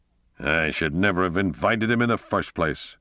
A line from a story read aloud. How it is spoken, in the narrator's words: Tom Lawrence growled